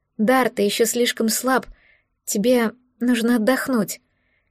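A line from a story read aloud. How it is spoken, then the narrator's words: Quiet, timid. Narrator (Russian): тихо заметила я, робко дотрагиваясь до его плеча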